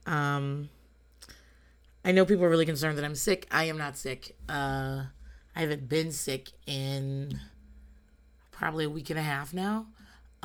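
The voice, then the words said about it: Voice not fully recovered yet. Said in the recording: “As you can hear, my voice is back, although it's not all the way back.”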